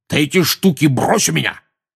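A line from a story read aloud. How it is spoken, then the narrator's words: Barking. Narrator (Russian): рявкнул дядя Вернон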